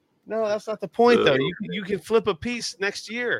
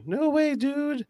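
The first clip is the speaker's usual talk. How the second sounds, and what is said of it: Impression of a co-host. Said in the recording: “I'm imitating Dickie. That's my Dickie impression.”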